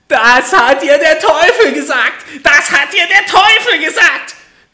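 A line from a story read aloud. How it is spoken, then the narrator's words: Angry shrieking little man. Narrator (German): schrie das Männlein … vor Zorn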